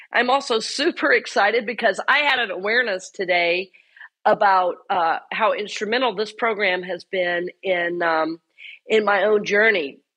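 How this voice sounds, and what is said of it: Voice sounds unwell, not back to normal. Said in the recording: “I am still healing. I'm sure you can hear in my voice. I'm not quite back to normal yet”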